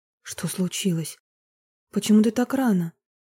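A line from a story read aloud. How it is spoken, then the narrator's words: Frightened question. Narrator (Russian): испуганно спросила Марина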